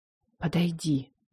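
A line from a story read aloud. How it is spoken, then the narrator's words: Wheezing, slurred. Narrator (Russian): прохрипела, словно с трудом ворочила языком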